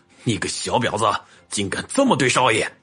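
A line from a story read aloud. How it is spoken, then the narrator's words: Harsh furious shout. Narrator (Chinese): 另一个人厉声吼道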